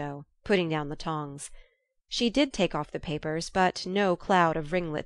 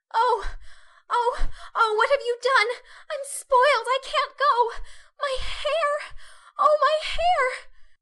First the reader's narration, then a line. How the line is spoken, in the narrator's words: wailed Meg, looking with despair